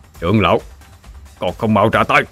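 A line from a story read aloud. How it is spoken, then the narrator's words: Harsh stressed voice. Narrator (Vietnamese): Lôi Vũ gằn giọng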